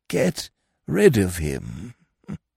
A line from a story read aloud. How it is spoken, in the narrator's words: he murmured, rolling the blessed words round his tongue